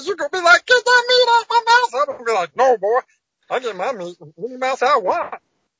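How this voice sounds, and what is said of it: Impression of Meatwad cartoon voice. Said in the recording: “your impression of Meatball ... Meatwad”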